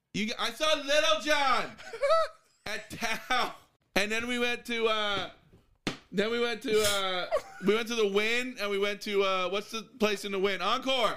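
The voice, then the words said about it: Loud yelling. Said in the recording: “keep yelling. I'm going to keep yelling.”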